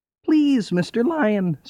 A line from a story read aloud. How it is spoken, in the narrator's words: squeaked the mouse